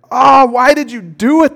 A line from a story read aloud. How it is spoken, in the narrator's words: groaned